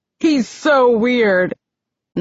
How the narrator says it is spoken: laughing hysterically

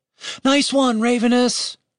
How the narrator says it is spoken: Julian shouted after him

